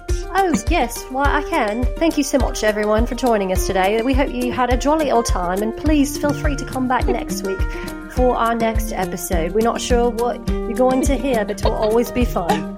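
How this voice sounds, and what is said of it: Put-on British accent. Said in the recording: “do the ending in a British accent”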